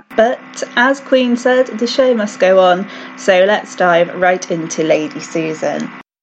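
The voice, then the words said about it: Congested voice from a cold. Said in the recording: “I'm sorry if I sound a bit odd today. I've got a bit of a cold”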